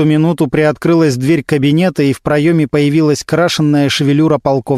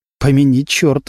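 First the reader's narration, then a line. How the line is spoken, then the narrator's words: Whispered. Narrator (Russian): шепнул Кривошеев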